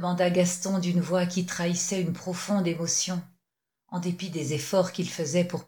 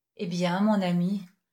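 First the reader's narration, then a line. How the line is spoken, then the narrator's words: Sad uncle. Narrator (French): dit tristement l'oncle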